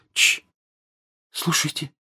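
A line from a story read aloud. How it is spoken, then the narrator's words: Sudden whisper. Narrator (Russian): Джинни вдруг прошептала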